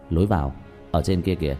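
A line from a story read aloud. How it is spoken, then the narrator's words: Smiling. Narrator (Vietnamese): lập tức mỉm cười nói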